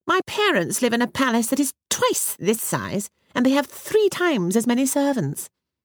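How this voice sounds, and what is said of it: Grand, haughty princess voice. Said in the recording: “in a rather grand voice”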